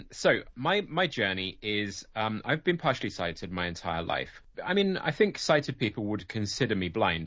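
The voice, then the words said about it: British accent. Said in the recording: “as you can probably tell by the accent,⟧ I'm British. I live in England.”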